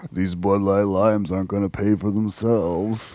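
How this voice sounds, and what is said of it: Imitates another person's voice. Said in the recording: “my Kevin Nash impression.”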